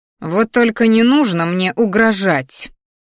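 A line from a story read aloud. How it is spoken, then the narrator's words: Growling woman. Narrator (Russian): рыкнула брюнетка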